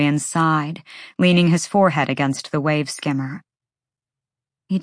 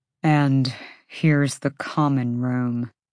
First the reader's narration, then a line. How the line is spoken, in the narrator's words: Hunt said through his teeth to Baxian